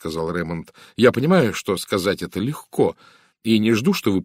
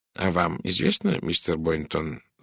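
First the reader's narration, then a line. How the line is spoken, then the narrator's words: Calm. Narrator (Russian): спокойно сказал Пуаро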